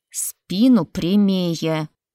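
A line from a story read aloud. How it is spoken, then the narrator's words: Hissed through teeth. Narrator (Russian): Сквозь зубы прошипела толстогубая боярыня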